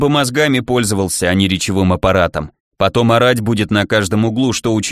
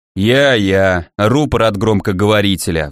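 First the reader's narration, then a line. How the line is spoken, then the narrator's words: Sighing. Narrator (Russian): вздохнул Арчибальд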